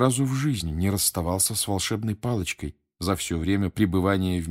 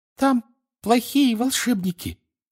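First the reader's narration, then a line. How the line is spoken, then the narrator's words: Flustered breathless squeak. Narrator (Russian): в смятении пищала она, в усилии не снижать темпа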